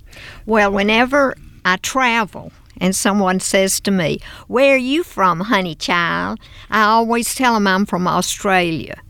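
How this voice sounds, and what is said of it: Southern American accent. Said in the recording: “I do find your accent very appealing ... my Southern accent”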